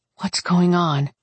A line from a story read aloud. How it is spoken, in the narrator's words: He sighed